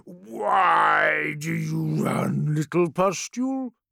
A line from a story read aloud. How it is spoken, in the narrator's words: deep voice rumbled, thick with foul mirth